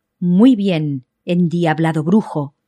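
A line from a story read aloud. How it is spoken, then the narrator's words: Exclaiming. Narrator (Spanish): exclamó don Pedro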